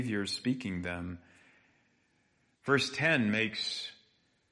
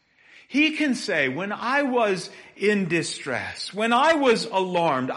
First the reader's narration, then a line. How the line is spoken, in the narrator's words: I cried out